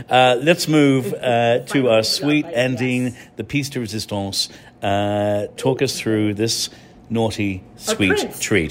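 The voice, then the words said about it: English accent. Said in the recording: “I'm an Irishman with an English accent”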